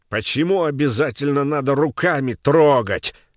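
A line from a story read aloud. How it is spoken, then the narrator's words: Lisping shout. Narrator (Russian): закричал он шепеляво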